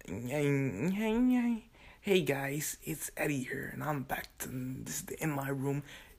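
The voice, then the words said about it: Imitates another person's put-on voice. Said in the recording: “He's doing his white voice. He pulled out the white voice.”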